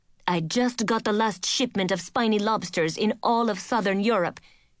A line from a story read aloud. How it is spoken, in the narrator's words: Chef Bernard was yelling